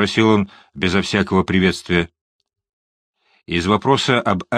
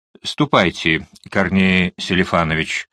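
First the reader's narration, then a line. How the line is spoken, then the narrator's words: Plain. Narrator (Russian): сказал я помощнику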